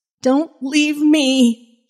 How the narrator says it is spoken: Jenny cried

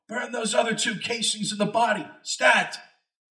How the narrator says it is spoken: From somewhere I heard Doug yell

